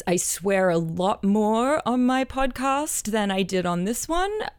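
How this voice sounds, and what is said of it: Australian accent. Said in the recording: “my accent, I'm originally Australian”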